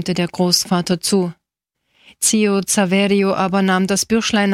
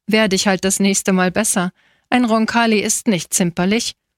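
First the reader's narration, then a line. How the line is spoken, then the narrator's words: Laughing. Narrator (German): sagte lachend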